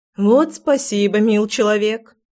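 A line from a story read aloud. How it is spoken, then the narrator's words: Nervous chuckle. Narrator (Russian): хохотнула я нервно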